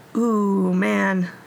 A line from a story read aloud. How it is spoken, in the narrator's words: he said with a little groan